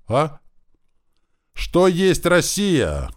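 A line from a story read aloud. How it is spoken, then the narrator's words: Shouted across table. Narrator (Russian): крикнула через стол баронесса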